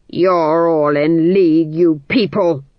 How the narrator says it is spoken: the Duke snarled

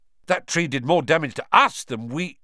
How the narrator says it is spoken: Ron blurted out

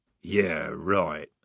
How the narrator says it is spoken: mumbled Strappy

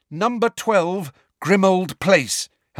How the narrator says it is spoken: Harry said loudly and clearly

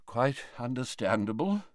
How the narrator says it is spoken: murmured Dumbledore

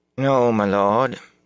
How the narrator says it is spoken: Anya replied, frowning

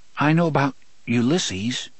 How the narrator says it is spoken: Jake said hesitantly

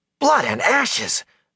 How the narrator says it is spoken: Matt yelped

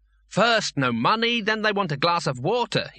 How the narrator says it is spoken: he snapped

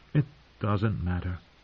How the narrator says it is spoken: Arya said in a dull voice

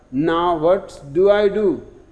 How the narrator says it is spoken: exclaims the Pope

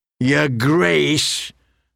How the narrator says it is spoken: Stannis repeated bitterly

